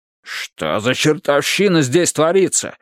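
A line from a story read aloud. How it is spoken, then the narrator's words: Exclaimed. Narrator (Russian): воскликнул он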